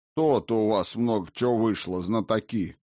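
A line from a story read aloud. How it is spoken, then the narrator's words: Shaken grumbling. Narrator (Russian): проворчал Прескос, кое-как приходя в себя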